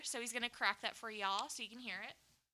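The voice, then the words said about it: Sudden Southern twang. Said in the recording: “The twang. Where'd the twang come from?”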